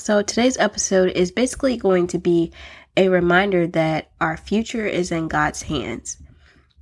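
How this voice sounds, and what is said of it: Voice sounds slightly off, recovering. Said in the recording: “excuse my voice ... I know my voice probably sounds a little bit different”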